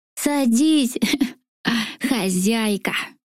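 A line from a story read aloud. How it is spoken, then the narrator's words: Creaky laughing voice. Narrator (Russian): Со смехом проскрипел пузатый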